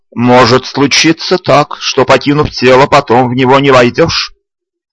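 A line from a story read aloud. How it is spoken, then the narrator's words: Stern instruction. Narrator (Russian): Строго наказывал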